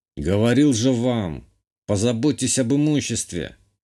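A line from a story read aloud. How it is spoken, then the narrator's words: Grumbling. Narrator (Russian): проворчал я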